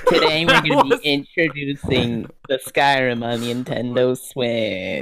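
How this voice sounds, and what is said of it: Imitates another person's voice. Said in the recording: “your best Todd Howard impression ... That was beautiful.”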